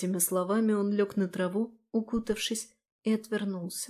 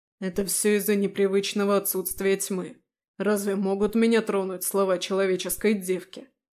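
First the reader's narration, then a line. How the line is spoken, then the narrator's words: Calm snort. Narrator (Russian): Успокоившись хмыкнул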